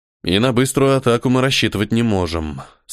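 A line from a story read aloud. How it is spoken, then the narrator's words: Gloomy sigh. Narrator (Russian): сумрачно вздохнул Первый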